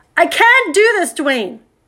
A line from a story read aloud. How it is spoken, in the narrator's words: she screamed